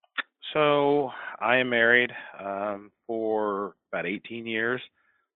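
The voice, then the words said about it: Flat, glum-sounding tone. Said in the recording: “do you sound so depressed”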